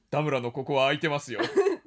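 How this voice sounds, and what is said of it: Poor imitation of another person's voice. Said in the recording (Japanese): “モノマネひどかったですよ。 ... 似てない”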